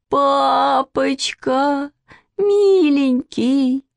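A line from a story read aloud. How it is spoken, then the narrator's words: Sudden whimpering. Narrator (Russian): вдруг захныкала Маня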